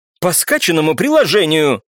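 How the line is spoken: Angry barked reply. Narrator (Russian): зло рявкнул в ответ, не желающий показывать слабость Данцев

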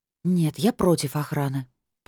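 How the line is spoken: Mumble into phone. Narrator (Russian): пробормотала в трубку

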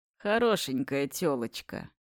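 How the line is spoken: Sudden creaky voice. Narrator (Russian): вдруг проскрипел Карпов

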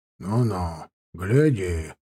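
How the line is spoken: Grumble. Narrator (Russian): проворчал тот

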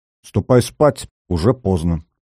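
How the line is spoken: Stern. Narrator (Russian): Рита строго сказала

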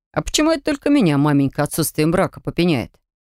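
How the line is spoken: Snorted. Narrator (Russian): фыркнул Варлеон

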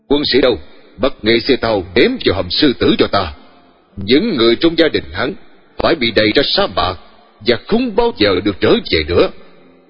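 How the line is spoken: Loud commanding shout. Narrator (Vietnamese): tôi quát lớn

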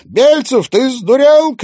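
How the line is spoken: Shout while spitting mud. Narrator (Russian): крикнула она, отплевываясь от грязи

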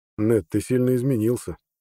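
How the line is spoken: Quiet. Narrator (Russian): тихо сказал Арнет

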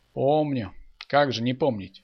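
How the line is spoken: Sighing. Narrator (Russian): вздохнул Михаил

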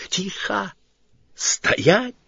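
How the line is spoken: Sudden furious whispered bark. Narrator (Russian): вдруг яростным шепотом рявкнул Сварог

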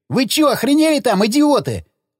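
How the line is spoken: Frightened yelling. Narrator (Russian): заорал перепугавшийся Федька

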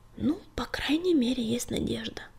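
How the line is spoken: Whisper in ear. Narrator (Russian): прошептал клубок на ухо огоньку

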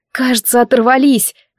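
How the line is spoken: Exhaled with weak relief. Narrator (Russian): выдохнула я с таким облегчением, что ослабла

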